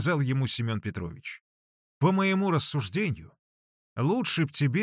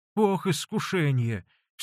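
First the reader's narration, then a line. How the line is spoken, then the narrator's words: Anxious sigh. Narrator (Russian): в сильной тревоге вздохнул Василий Борисович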